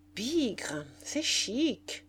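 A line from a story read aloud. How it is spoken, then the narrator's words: Murmuring. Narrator (French): murmura Satin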